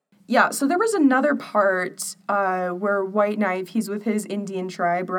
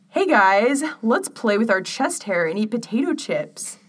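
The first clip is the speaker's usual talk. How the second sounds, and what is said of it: Put-on white American accent. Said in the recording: “white accent, American accent ... this is the impersonation”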